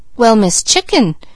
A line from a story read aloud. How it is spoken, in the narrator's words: exclaimed Mickey in surprise